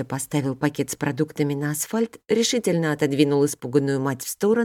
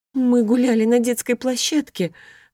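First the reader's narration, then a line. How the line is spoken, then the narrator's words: Trembling voice. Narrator (Russian): дрожащим голосом принялась рассказывать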